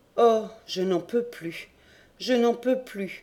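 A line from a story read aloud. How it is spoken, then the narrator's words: Moaning. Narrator (French): gémissait Courtès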